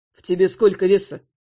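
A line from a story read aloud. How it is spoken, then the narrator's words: Businesslike question. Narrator (Russian): Деловым тоном спросил Эльвар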